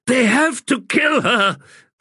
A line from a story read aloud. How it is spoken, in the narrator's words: cried Erastus